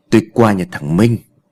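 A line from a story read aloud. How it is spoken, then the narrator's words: Plain. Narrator (Vietnamese): ông trả lời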